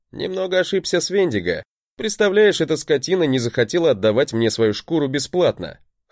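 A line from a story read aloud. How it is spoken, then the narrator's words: Chuckling. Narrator (Russian): хохотнул я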